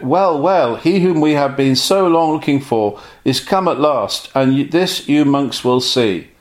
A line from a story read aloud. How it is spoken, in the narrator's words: unable to contain his joy, he exclaimed